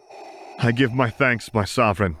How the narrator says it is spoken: he gasped out, grinning wide

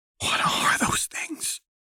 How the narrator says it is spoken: Lux rasped

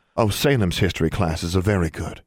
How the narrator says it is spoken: Julia said

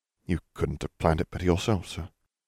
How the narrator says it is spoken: Harry murmured

